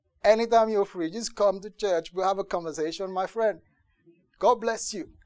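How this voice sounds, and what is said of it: Put-on London accent. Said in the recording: “I had to maintain the London accent”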